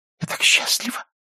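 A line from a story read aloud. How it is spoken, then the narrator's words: Whisper. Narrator (Russian): шепнула она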